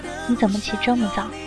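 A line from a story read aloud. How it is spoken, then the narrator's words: Soft. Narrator (Chinese): 轻声说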